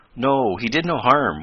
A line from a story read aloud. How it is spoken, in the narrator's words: went on Tom, in a reassuring tone